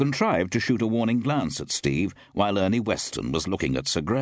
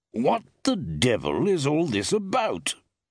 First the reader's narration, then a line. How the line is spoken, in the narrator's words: snapped Forbes irritably